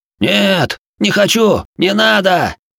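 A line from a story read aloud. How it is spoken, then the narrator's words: Terrified scream. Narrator (Russian): завопил второй парень, не желавший повторять участь первого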